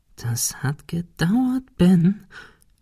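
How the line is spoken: Whispering to himself. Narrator (German): flüsterte er sich selbst zu

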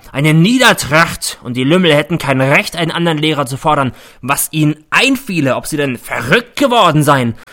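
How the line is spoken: Bellowing. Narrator (German): brüllt er

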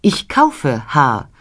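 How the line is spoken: Plain. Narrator (German): antwortete Madame

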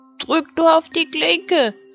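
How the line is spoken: Grandmother calling. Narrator (German): rief die Großmutter

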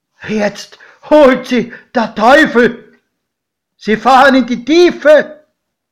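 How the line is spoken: Screamed. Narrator (German): schrie mein Pate

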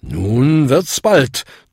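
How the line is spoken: Thundering. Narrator (German): donnerte Bung

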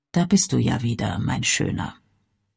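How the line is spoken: Soft muttering to himself. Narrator (German): Davy murmelte leise vor sich hin

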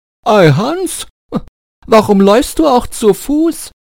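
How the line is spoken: Called out. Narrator (German): Der Reiter rief

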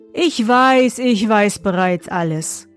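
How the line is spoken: Plain. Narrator (German): sagte er

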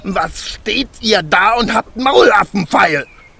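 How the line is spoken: Furious shout. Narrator (German): schrie der Zwerg, und sein aschgraues Gesicht war zinnoberrot vor Zorn

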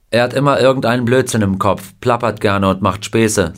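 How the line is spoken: Plain. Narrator (German): sagte Bill

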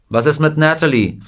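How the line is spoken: Calling out. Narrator (German): rief jemand

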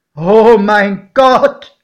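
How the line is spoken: Exclaiming. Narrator (German): rief mein Pate

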